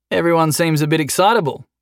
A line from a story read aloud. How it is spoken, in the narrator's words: Jason said